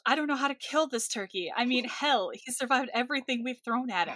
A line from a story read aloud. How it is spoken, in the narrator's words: Darren yells